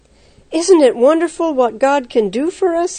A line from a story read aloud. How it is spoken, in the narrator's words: he exclaimed